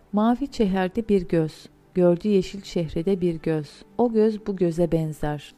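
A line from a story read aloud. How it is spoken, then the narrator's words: Plain. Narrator (Turkish): dedi birinci göz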